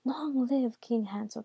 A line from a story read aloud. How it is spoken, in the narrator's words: cried